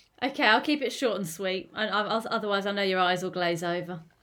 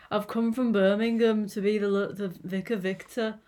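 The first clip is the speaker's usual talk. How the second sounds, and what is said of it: Weak attempt at Birmingham accent. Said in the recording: “you know I can't do a Brummy accent... Brummy... it's one of my blank spots”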